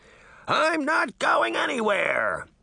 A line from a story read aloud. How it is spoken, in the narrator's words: he shouted